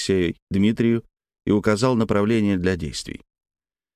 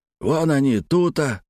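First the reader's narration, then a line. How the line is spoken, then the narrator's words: Hoarse smoky voice offstage. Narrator (Russian): прохрипел кто-то из-за угла прокуренным голосом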